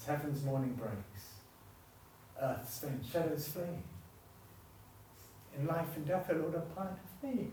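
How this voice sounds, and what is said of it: Emotional, choked-up voice. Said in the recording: “I'm sorry I'm getting emotional”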